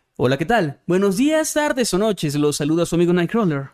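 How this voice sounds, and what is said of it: Announcer voice. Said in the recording (Spanish): “con voz de locutor”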